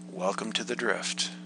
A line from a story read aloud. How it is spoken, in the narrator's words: I muttered